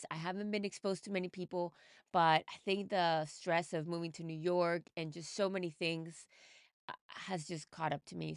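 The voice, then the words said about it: Weird, sick-sounding voice. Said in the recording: “if you can hear weird voice going on right now, I am totally under the weather ... I have been just hit with a cold ... So please excuse the voice.”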